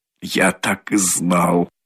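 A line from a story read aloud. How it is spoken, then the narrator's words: Embarrassed muttering. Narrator (Russian): бормотал он в смущении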